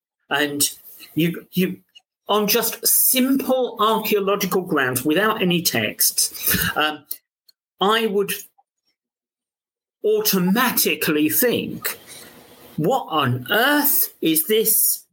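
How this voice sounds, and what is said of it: London accent. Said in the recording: “You can tell my London accent coming in.”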